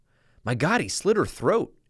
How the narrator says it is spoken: exclaimed Gates

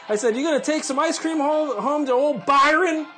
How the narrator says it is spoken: I screamed in her face

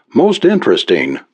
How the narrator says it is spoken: Blanchard murmured

